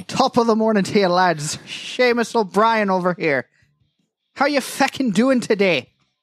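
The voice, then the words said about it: Deliberately bad put-on Irish accent. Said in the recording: “I put on that awful, awful garbage Irish accent ... I'm horrible at recreating it”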